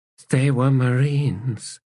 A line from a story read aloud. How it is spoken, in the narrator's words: said in a weak voice